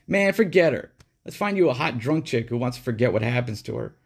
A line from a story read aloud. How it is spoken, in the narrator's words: he put on a faux sympathetic face and said with a chuckle